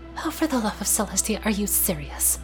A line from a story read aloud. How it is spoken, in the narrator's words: Twilight mumbled